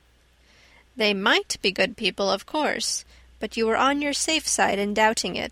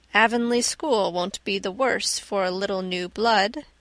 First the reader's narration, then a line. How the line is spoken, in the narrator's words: said Marilla dryly